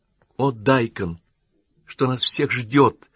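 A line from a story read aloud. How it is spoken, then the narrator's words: Breaking voice, young woman exclaiming. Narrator (Russian): срывающимся голосом воскликнула девушка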